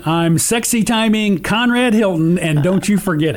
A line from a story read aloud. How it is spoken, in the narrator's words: He screamed again